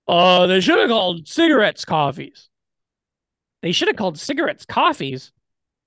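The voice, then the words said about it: Imitates another person's voice. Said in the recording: “do my impression of you”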